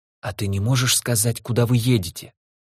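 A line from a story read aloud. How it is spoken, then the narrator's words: Whispered question. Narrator (Russian): спрашивает шепотом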